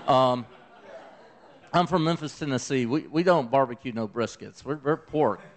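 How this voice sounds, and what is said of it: Mild Southern US accent. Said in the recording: “My southern accent ain't that strong, y'all.”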